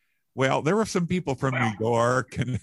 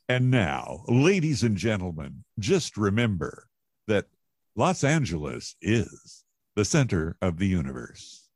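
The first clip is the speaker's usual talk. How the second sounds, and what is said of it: Booming announcer-style radio voice. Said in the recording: “I just got my best radio voice on, and I stuck my mouth all the way in the microphone as far as I could”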